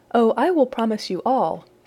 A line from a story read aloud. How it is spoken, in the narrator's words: said she